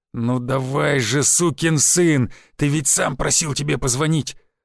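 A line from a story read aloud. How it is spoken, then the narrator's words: Growl. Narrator (Russian): рыкнул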